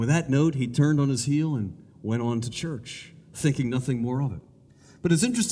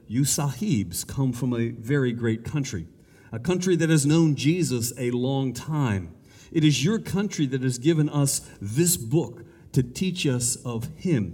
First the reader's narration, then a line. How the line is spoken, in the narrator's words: he said